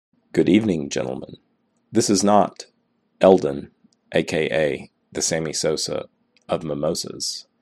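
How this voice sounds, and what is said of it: Croaky vocal fry, sick voice. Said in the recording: “Don't let the vocal fry throw you off... I've just had a gnarly cold.”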